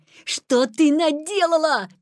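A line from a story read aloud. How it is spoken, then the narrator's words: Shouted. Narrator (Russian): крикнул Петя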